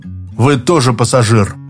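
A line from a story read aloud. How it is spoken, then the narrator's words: Grumbled. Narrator (Russian): проворчал Быков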